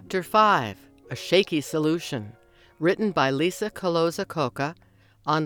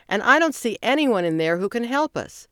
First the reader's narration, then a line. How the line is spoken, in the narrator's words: shouted